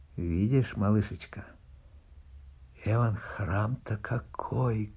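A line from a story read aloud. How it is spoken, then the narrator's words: Plain. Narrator (Russian): говорит Акулина Ивановна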